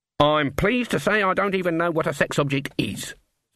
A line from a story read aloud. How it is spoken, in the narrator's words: said Granny Weatherwax firmly